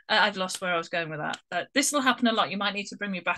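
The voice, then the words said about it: Posh British accent. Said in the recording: “a bit of a posh accent”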